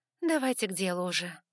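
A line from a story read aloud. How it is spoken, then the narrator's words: Tired request. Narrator (Russian): устало попросила я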